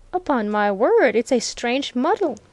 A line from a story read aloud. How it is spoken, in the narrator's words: exclaimed Viner